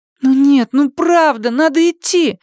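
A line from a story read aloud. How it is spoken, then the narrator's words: Pleading. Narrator (Russian): взмолилась Сьюзен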